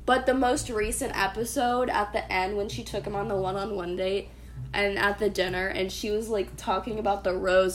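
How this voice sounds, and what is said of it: Sick, strained throaty voice. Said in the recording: “my voice keeps fucking going crazy. I'm sick. I have shit in my throat.”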